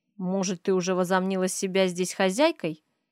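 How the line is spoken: Angry whisper. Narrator (Russian): зло шеплю я

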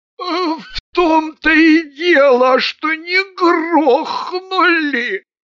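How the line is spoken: Squeaky voice. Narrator (Russian): пропищал Маргун

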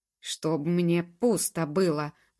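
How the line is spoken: Booming rumbling bass. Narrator (Russian): гулким басом пророкотало оно

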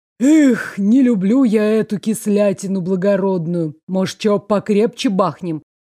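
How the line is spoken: Sudden deep bass. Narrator (Russian): Эльза внезапно пробасила

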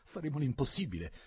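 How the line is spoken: Embarrassed stammer. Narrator (Italian): balbetto, leggermente imbarazzato

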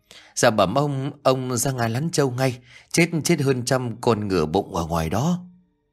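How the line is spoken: Stammering servant girl. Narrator (Vietnamese): con hầu gái lắp bắp

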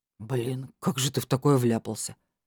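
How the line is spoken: Sympathetic inquiry. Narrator (Russian): Сочувственным голосом поинтересовался Илья

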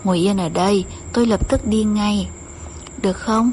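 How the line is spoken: Sweet coaxing. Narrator (Vietnamese): anh bỗng nói bằng giọng điệu ngọt ngào như dụ dỗ trẻ con

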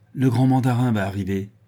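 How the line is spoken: Curt, haughty exclamation. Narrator (French): s'écria-t-il d'un ton bref et plein de morgue

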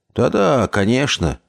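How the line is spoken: Muttered. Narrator (Russian): пробормотал я

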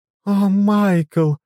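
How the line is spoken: Dramatic female exclamation. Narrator (Russian): патетически воскликнула Кривейн

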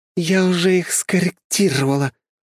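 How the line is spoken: Stated through gritted teeth. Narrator (Russian): сквозь зубы констатировала Диана

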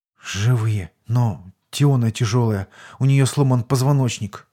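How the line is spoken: Whispered answer. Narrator (Russian): шепотом ответил Сергей

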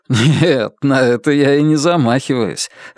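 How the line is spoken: Laughing. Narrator (Russian): рассмеялся Алан

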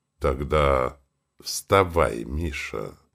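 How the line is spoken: Dejected interrupting voice. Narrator (Russian): Поникшим голосом перебил граф

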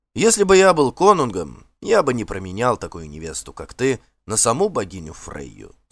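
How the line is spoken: Plain. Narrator (Russian): сказал он

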